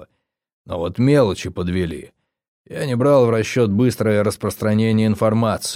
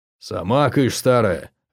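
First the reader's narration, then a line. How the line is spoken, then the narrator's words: Growled. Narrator (Russian): рыкнул Гросс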